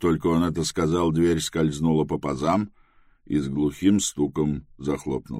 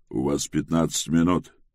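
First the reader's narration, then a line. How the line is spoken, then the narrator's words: Menacing voice. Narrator (Russian): грозным голосом напомнил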